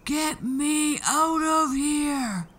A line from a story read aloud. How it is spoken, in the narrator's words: The giant was bellowing and banging, yelling and thumping